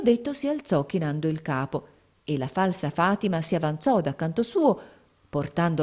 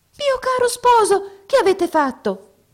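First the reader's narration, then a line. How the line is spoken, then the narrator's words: Surprised exclamation. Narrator (Italian): esclamò la principessa nella sua sorpresa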